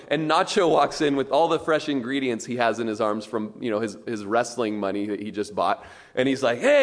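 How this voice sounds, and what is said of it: Usual voice. Nothing is said of it.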